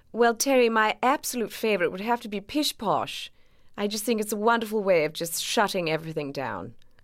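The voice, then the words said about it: Exaggerated posh 1930s Mary Poppins accent. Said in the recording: “for Mary Poppins, it needed to be a pretty exaggerated version of that because of her imperious nature ... she should sound practically perfect ... set in the 30s, which was a very specific sound ... I listened to Princess Margaret quite a lot for how she spoke ... that proper accent”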